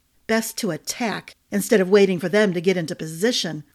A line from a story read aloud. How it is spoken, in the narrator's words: Clancy grumbled